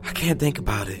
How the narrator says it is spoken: she said softly, her voice muffled

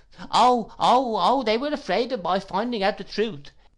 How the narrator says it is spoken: exclaimed Miss Moucher

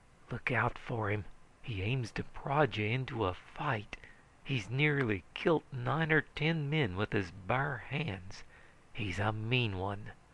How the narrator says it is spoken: the bartender whispered to me

